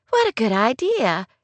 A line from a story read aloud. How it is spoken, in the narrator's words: Beth chirped eagerly